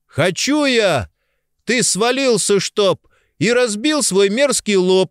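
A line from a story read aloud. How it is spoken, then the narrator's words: Shouted out. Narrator (Russian): выкрикнул Элам вслед кучеру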